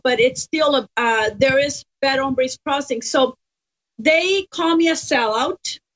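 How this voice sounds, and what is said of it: Accented English. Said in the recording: “This accent, I'm the only one in my family that has an accent ... I got this accent from running the streets of San Jose, California”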